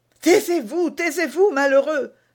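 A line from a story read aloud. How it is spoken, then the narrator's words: Young woman exclaiming. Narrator (French): s'écria la jeune femme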